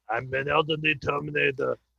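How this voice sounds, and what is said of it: Imitates a Terminator robot voice. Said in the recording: “About Schmidt for Terminators. I'm an elderly Terminator that's making blinds. I can't even do the voice.”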